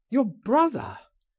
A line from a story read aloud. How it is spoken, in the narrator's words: I cried